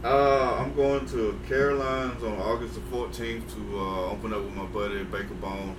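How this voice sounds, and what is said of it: Southern American accent. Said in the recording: “I got a southern accent ... they think it's a speech impediment. It's not.”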